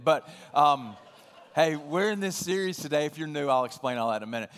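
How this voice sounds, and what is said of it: Voice with a cold. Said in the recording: “I've got a little bit of a cold”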